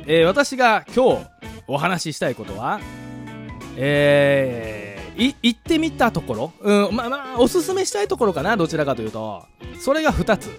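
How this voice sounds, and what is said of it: Strong Kansai dialect accent. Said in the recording (Japanese): “コテコテの関西人 ... 関西弁バリバリ出てます ... いつも以上に関西弁で喋、えー、りたい”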